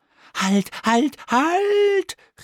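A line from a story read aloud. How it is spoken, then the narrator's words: Call out. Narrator (German): rief es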